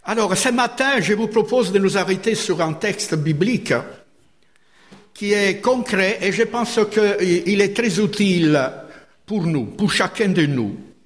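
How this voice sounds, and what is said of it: Slight foreign accent in French. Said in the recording (French): “j'ai un petit accent ... vous êtes des Français, alors il faut que je prononce mieux”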